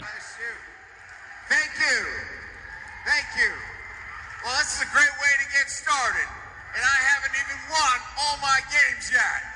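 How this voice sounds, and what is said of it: Phony put-on Southern accent. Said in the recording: “he does a Southern accent, which he's never done before... It is the most phony thing I've ever heard in my life... Brian Kelly's from Boston. Never been to Louisiana in his life.”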